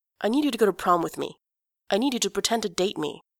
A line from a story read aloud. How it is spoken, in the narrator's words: In one breath, he blurts out